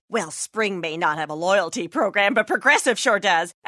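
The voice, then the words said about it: Imitates chatty neighbor's voice. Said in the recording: “my impression of your neighbor who really likes to talk about the weather”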